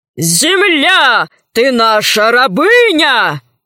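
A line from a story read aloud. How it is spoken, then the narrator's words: Yelling. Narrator (Russian): завопил адмирал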